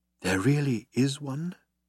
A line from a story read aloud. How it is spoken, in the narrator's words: breathed Falk